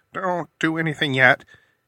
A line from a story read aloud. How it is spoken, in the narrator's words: he pleaded